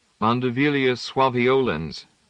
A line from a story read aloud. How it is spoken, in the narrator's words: said her son